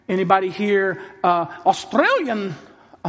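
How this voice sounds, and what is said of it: Bad put-on Australian accent. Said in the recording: “That's a totally bad accent.”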